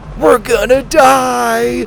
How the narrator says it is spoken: Sawyer cried

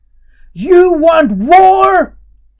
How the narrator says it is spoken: Harry yelled

